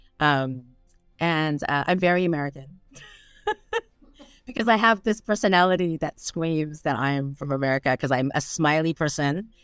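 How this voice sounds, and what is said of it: American English accent. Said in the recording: “obviously I'm American, as you can tell by my accent”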